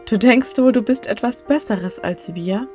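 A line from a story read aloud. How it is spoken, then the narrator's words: Laughing crowd. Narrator (German): lachten die Leute und sagten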